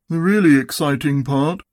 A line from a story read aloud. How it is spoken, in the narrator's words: said Eeyore in his most melancholy voice